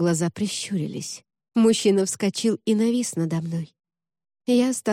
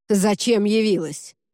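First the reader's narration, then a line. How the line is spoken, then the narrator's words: Rude, curt. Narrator (Russian): грубо бросил он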